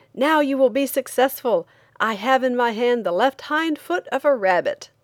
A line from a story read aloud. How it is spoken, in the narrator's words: he shouted